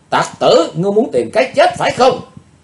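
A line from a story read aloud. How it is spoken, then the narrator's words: Shout. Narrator (Vietnamese): Miệng thì hét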